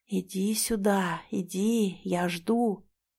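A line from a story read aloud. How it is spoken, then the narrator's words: Possessed whispering call. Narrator (Russian): Одержимая Сара взывала ко мне из тьмы, шептала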